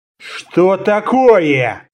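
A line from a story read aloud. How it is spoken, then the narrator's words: Tense hiss. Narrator (Russian): напряженно прошипел центурион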